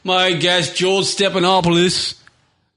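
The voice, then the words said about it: Fake British accent sounding Australian. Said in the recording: “I'll do the fake fucking British accent too... I sound Australian.”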